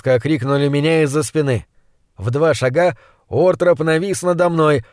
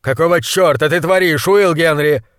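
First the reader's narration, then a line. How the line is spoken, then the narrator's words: Yelling in face. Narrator (Russian): заорал монстролог в мое вскинутое лицо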